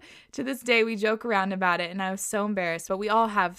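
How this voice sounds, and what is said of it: Usual voice. Nothing is said of it.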